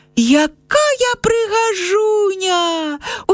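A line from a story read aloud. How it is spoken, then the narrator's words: Girl exclaiming. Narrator (Belarusian): усклікнула дзяўчынка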